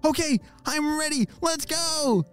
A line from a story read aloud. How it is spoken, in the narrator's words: shouted Ollie